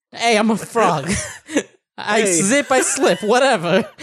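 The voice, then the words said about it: Frog character voice, Bronx style. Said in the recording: “Great Slippy impersonation. ... That's what Zippy sounds like. ... Slippy's cousin from the Bronx.”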